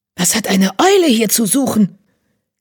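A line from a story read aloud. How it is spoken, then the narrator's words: Hissing warrior. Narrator (German): zischte ein gefleckter Krieger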